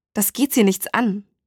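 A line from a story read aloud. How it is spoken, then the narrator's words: Hissed. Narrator (German): fauchte sie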